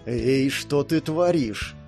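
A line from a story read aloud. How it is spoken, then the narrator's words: Hissing. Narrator (Russian): прошипел Барт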